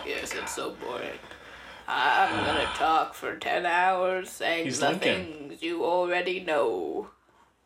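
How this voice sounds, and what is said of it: Impression of Daniel Day-Lewis's Lincoln. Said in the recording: “Daniel Day-Lewis, especially in Lincoln ... Great impersonation.”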